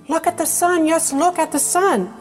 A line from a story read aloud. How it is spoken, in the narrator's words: cried Mrs